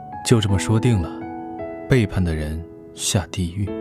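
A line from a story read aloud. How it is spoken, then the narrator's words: Flat, indifferent. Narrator (Chinese): 李寻淡淡道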